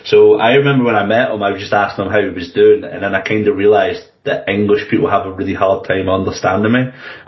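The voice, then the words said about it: English accent with Scottish undertones. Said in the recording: “my accent is sort of a bit English with a bit Scottish. Someone compared it to Sean Connery's James Bond, where it's like, you know he's kind of English, but there's just a lot of Scottish coming through”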